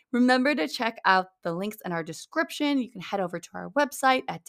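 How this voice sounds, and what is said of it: Scratchy, partly lost voice. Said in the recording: “if my voice sounds a little scratchy right now, I'm convinced I lost my voice”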